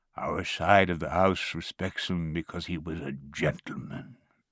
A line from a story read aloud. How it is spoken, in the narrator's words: he said in a deep voice